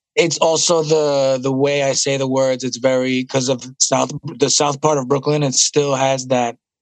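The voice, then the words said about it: Raspy Brooklyn accent. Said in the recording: “The raspy Brooklyn accent.”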